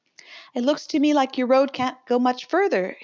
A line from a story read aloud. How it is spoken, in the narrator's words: she remarked cheerfully